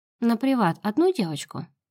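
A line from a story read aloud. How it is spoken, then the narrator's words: Calm question. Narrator (Russian): спокойно спрашивает администратор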